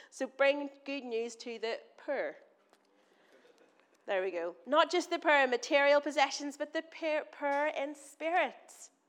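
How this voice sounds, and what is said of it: Northern Irish accent. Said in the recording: “I'm from Northern Ireland. I'm going to say words that probably don't make sense to you in my accent.”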